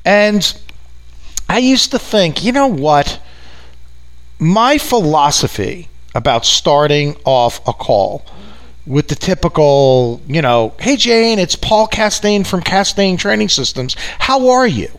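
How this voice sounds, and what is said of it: New York accent. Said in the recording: “if you haven't picked up from my accent, right, big shock, I'm from New York”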